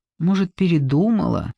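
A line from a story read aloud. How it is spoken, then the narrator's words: Dejected inner thought. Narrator (Russian): уныло подумал Тим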